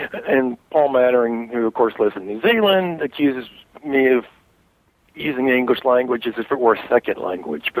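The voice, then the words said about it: Texas drawl. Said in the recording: “that's my Texas drawl”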